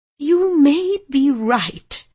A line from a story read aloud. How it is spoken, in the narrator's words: I said in an unsteady voice, my lips twitching